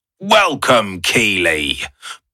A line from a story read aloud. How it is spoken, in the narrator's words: boomed a beaming Arthur Pendragon